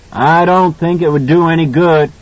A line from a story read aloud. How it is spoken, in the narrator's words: Halloran shouted back